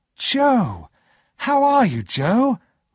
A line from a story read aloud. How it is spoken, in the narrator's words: cried